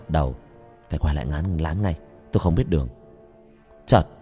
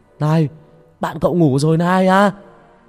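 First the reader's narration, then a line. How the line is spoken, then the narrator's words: Shout. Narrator (Vietnamese): Ông Sân hét lên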